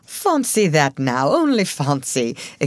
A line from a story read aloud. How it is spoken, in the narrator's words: exclaimed Mr